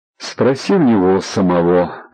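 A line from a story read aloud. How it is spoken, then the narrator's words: Grim joke. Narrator (Russian): мрачно пошутил Егор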